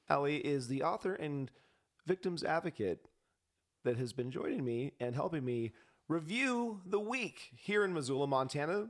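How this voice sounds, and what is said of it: Strained, worn-out hoarse voice. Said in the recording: “My voice is a little shot again. I like to project my strong feelings throughout the week”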